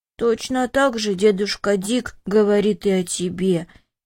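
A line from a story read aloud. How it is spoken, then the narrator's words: Sad. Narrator (Russian): печально заметил Виктор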